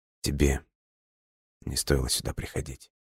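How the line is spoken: Barely audible. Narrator (Russian): еле слышно произнес Альберт

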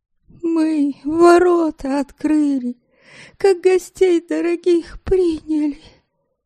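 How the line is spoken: Hoarse wheezing. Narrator (Russian): всхрипывала Земятовна

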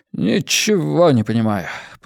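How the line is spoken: Muttered. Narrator (Russian): пробормотал Хент

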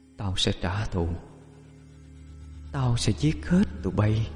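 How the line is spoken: Distant eerie whisper. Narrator (Vietnamese): văng vẳng tiếng thì thào

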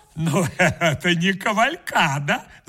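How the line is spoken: Laughing. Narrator (Russian): засмеялась

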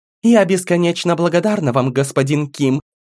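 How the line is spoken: Cold reply from darkness. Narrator (Russian): Холодно ответили из темноты

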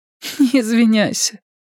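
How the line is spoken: Tearful, smiling. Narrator (Russian): сказала она, улыбаясь сквозь слезы

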